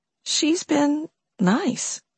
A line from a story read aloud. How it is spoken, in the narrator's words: Riley said softly